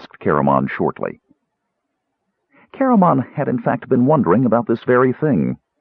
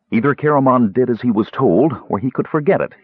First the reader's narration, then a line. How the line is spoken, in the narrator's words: he said sharply